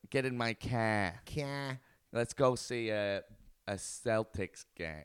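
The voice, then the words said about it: Attempted Boston accent. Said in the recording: “I can't do a good Boston accent ... that's not bad. It wasn't too bad, actually.”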